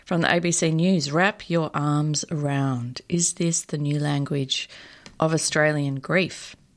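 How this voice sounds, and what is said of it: Slight vocal fry, creaky voice. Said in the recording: “I've got a little bit of vocal fry this morning”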